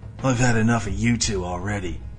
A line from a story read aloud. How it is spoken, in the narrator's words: Ace spat in disgust, and the fear was back in his eyes